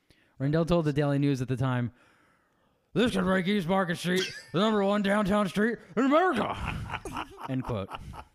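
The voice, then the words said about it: Ed Rendell impression, phlegmy voice. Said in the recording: “Read it in an Ed Rendell voice... Can you read it in an Ed Rendell voice?... I don't think I had enough phlegm in my mouth.”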